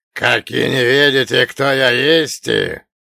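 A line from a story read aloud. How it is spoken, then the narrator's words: Booming giant. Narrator (Russian): прогудел великан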